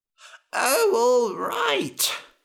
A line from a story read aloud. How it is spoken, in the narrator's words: he groaned